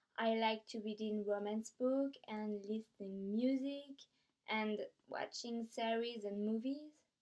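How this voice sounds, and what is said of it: French-accented English. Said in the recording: “I'm from France. So sorry for my accent.”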